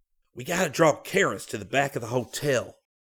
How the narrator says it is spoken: Scotty whispered

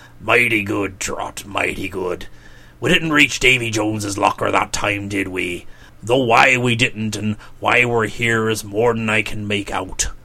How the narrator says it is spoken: said in a gurgling voice

